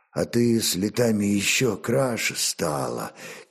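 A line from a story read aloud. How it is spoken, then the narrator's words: Quiet. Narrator (Russian): тихо молвил Олег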